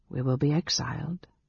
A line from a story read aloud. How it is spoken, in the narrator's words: she said softly